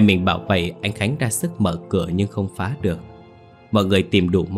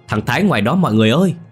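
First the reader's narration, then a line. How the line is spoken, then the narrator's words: Loud yell. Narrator (Vietnamese): Mình gào lớn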